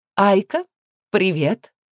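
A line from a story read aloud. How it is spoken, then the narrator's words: Exaggeratedly cheerful, hiccuping. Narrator (Russian): Подчеркнуто задорным тоном встретила меня Алекс и, громко икнув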